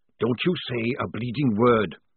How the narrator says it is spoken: hissed Jackram

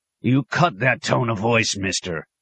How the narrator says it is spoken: the officer barked

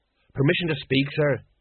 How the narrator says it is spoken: he muttered

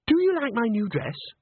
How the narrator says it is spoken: she exclaimed

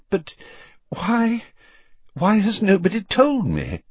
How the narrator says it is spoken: said the Prime Minister breathlessly

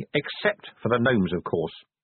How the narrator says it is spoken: said Vimes coldly

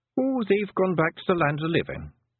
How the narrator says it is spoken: said Rob Anybody cheerfully

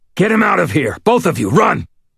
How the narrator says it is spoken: snarled

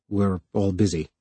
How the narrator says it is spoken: mumbled Harlan, fighting to keep off something that could only be described as a numb content

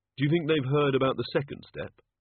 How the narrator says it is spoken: Susan sighed

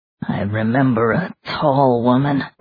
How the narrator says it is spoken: Richard muttered

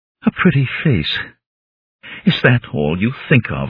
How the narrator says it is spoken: she asked, and the words seemed pulled from her in sobs

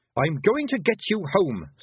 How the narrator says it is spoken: snapped Tiffany

